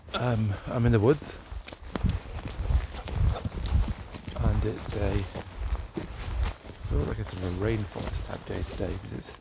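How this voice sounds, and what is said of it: Rough, hoarse voice. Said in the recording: “excuse my voice because I'm very rough.”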